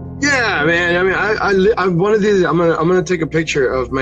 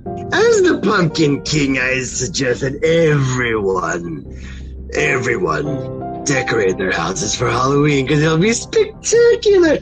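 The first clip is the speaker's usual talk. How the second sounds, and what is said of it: Joker impression character voice. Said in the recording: “best Joker impression I can do ... throwing out his voice”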